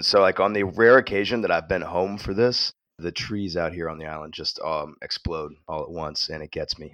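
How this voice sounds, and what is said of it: Deep, congested voice. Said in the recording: “you can hear I've got my sexy college radio voice back ... it's allergy season ... your nose running”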